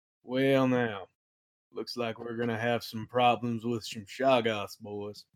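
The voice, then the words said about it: Cowboy-style Texas-y voice. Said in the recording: “impersonation of Matt Mercer doing McCree from Overwatch ... It wasn't bad. It wasn't bad. It was a little cowboy, a little Texas-y.”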